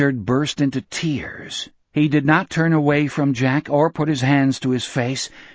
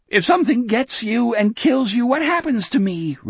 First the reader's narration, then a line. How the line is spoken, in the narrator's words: Richard sobbed